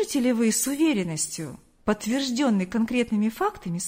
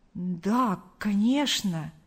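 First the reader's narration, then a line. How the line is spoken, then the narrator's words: Plain. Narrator (Russian): ответил Артур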